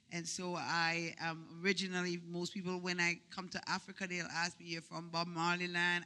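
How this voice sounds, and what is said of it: Jamaican accent. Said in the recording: “I don't know if my accent betrays me, but I'm originally from Jamaica. ... It's one of those twisted accents.”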